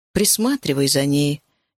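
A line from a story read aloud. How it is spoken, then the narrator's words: Quiet request. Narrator (Russian): тихо попросила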